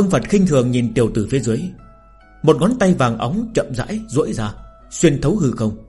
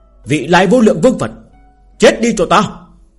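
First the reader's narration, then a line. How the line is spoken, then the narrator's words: Loud shout. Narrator (Vietnamese): hét lớn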